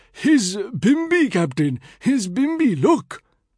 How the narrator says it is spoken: Picture Singh, aghast, cried

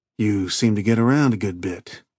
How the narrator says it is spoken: Keith said dryly

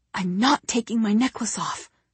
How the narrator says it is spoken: Jesse whispers angrily

